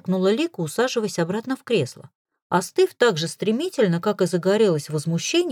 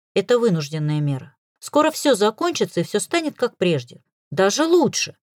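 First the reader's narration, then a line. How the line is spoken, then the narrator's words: Conciliatory tone. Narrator (Russian): Максим заговорил примирительным тоном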